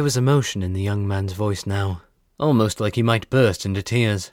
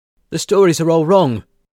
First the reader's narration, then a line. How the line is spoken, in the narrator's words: continued loudly